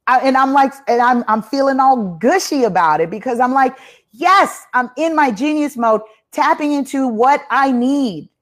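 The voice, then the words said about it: Loud, overly excited energetic delivery. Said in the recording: “I'm not yelling, y'all... I'm not yelling... This is my overly excited energy because I'm feeling really pumped today”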